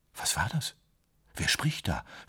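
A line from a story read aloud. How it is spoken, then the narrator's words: Barely audible whisper. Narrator (German): flüsterte er kaum hörbar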